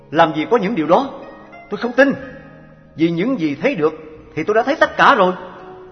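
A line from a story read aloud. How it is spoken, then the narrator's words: Loud voice. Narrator (Vietnamese): Anh ta bèn lớn tiếng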